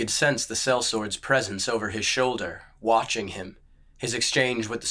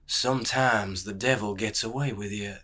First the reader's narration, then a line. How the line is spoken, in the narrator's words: murmured